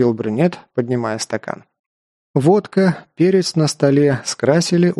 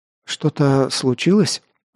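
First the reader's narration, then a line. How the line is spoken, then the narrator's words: Timid question. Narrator (Russian): Робко спросил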